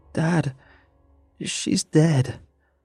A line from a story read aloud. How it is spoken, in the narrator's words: I choked out